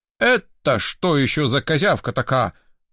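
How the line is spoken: Menacing question. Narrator (Russian): грозно вопросил он

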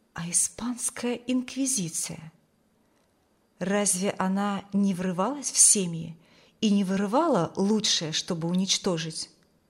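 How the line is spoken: Whispered. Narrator (Russian): словно кто-то шепнул ей

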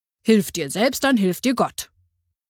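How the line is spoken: Firm voice. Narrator (German): sagte mit fester Stimme

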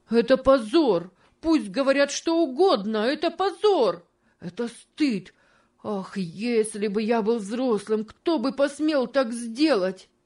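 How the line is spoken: Shouting with stifled sobs. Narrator (Russian): кричал он со сдержанным рыданием

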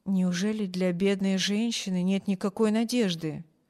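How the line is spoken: Quiet question. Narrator (Russian): тихо спросил хозяин мисс Корта, чтобы не слышала больная

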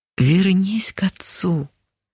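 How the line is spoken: Quiet calm familiar voice. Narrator (Russian): Тихо прозвучал спокойный до боли знакомый голос

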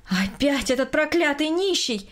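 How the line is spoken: Loud exclamation. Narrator (Russian): громко воскликнула Берта Петровна, увидев перед собой мужчину

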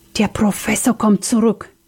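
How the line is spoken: Panicked whisper. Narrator (German): wisperte Sam voller Panik

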